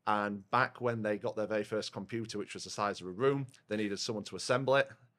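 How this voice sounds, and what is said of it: Rotherham English accent. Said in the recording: “from Rotherham. You can probably tell by the accent”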